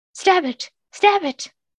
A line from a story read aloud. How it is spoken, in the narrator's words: cried the guard as he tried to hold on the crocodile